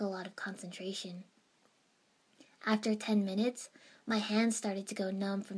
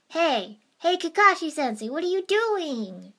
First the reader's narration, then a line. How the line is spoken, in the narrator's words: He exclaimed loudly